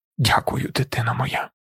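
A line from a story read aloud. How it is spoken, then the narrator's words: Whispered. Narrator (Ukrainian): прошепотів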